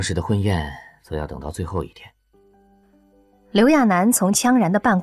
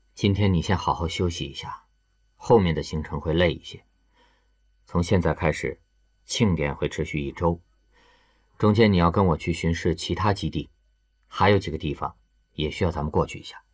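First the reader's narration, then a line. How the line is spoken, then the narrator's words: Calm, flat. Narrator (Chinese): 羌然表情平静，淡淡的说道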